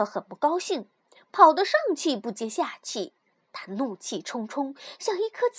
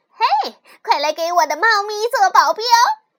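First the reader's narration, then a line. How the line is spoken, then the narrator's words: Loud call. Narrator (Chinese): 李小姐 马上大声叫道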